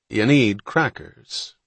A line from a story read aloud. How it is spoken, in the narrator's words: the lobster man said in a gentler tone